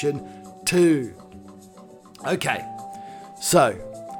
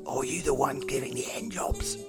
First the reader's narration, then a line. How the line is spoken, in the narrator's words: he asks in a quiet voice